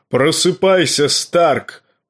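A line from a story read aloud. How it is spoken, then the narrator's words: Booming. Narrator (Russian): прогремел он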